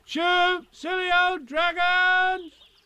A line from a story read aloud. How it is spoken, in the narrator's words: I shouted